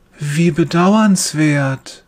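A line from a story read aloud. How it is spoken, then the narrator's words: Gentle voice. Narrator (German): sagt er mit sanfter Stimme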